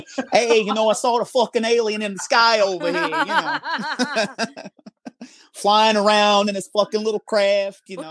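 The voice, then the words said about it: Put-on New York accent. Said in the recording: “do these eyewitness accounts in your best New York accent”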